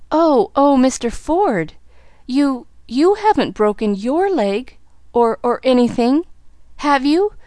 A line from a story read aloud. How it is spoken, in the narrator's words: she gasped